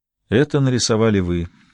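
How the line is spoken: Quiet, gentle. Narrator (Russian): тихо сказал Гамаш, не желая грубо вторгаться в воспоминания Питера

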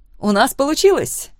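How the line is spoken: Eager exclamation. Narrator (Russian): горячо воскликнула Лора, вызывая у меня улыбку своей эмоциональностью

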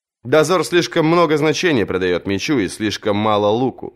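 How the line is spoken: Plain. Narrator (Russian): сказал он

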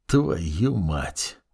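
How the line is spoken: Quiet curse. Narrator (Russian): негромко выругался

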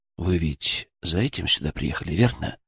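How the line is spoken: Soft, almost sympathetic. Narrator (Russian): Мой голос прозвучал мягко, почти сочувственно

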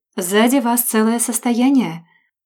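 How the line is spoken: Silky seductive baritone. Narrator (Russian): это было сказано вкрадчиво, соблазнительным бархатным баритоном

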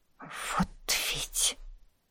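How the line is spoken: Hiccup and exhale. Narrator (Russian): Анна икнула и выдохнула

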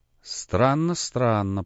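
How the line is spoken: Mutter. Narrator (Russian): пробормотал Очмянов

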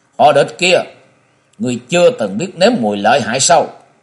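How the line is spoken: Sudden loud shout. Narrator (Vietnamese): Châu Kiếm Hồn bỗng nhiên quát lớn nói

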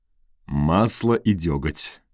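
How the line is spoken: Laughing. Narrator (Russian): рассмеялся он

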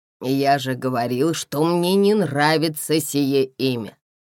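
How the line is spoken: Displeased grumbling. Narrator (Russian): Недовольно пробурчал

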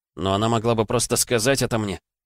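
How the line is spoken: Angry child. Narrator (Russian): сердито сказал мальчик

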